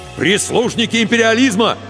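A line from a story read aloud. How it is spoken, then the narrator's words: Angry shout. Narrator (Russian): гневно выкрикнул Егор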